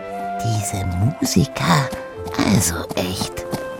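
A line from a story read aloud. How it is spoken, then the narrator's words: Whispered in ear. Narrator (German): flüsterte sie ihm ins Ohr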